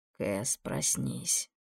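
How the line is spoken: Quiet calling. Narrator (Russian): негромко позвал он

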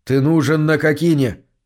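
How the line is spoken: Hurried reply. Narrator (Russian): торопливо ответил ему Мур

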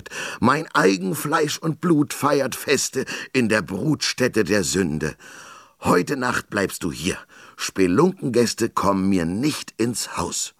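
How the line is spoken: Bellowing. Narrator (German): brüllte

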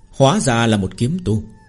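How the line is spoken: Cold laugh. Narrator (Vietnamese): Tên đạo nhân phù lục phái cười lạnh lùng

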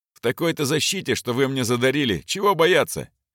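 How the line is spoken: Cheerful reply. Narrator (Russian): весело ответил капитан

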